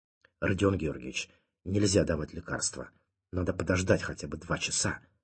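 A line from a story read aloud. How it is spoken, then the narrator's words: Whisper. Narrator (Russian): прошептал Лебедев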